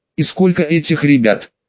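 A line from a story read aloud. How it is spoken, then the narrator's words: Plain. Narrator (Russian): спросил Евгений Иванович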